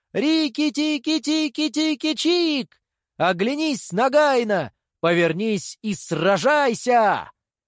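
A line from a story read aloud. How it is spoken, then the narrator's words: Shouting. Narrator (Russian): Рикки-тикки закричал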